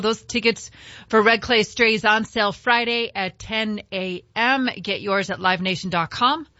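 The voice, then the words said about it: Hoarse, strained voice. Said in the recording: “I don't know why I'm losing my voice, but I am.”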